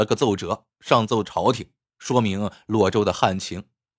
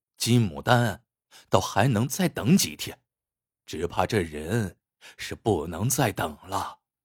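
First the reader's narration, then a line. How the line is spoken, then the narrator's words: Sighing. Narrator (Chinese): 吴先珍听王灵溪说身无分文的时候，他叹了一口气说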